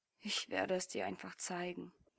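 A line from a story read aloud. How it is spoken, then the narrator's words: Sulky mutter. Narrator (German): murmelte er mit vorgeschobener Unterlippe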